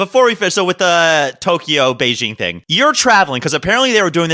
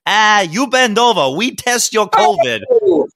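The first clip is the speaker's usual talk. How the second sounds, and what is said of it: Put-on Chinese accent. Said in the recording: “Chinese accent in the Chinese restaurant thing”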